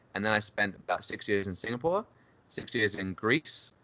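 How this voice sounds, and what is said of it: English accent. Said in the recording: “which is probably what my accent mostly is ... everyone's going to think this is a fake accent ... indeed is British”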